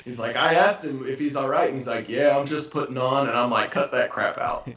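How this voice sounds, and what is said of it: Imitates another person's voice. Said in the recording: “my best impression”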